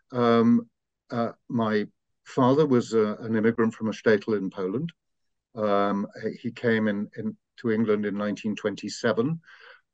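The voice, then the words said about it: Refined English accent. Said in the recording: “a relatively refined English accent”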